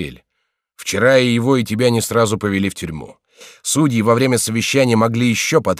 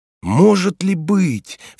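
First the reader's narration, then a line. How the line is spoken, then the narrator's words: Sudden cry. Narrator (Russian): вскрикнул Арно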